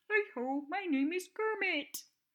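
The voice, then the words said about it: Kermit the Frog puppet voice. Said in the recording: “my best impression of Kermit the Frog”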